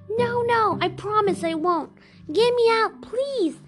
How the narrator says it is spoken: the snake pleaded and cried

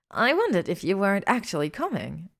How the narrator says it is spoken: Melania Black exclaimed from behind her

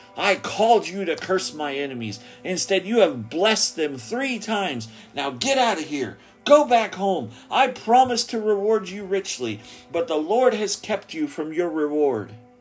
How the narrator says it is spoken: He angrily shouted

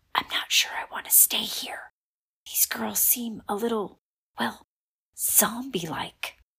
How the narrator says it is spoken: Lila whispered

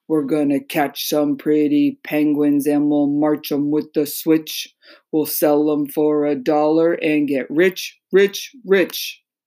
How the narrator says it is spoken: the growly voices chanting

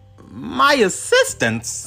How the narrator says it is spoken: Peter said hesitantly

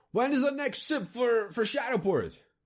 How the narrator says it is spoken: he just yells

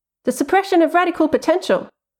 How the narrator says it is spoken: I blurted

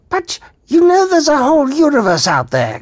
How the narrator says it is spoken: cried Zarniwoop

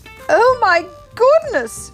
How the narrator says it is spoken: she cried

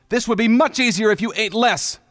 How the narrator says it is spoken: Ruto yelled

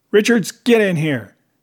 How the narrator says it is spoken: yelled

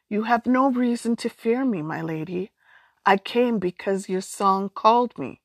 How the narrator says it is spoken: she added gently

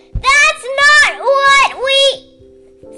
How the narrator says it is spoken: Sundew bellowed

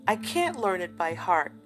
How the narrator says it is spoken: he said at last with a gasp

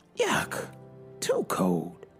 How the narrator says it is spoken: she spluttered

